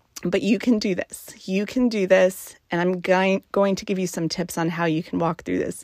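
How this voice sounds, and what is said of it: Emotional, choked-up speaking voice. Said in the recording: “my apologies for getting emotional.”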